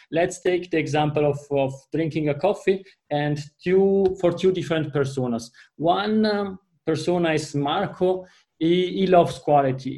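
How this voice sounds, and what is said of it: Italian accent in English. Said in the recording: “you are hearing that from my accent, my mother tongue is Italian”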